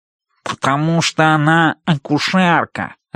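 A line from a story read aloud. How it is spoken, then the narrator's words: Nasal voice. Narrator (Russian): отвечает гнусавый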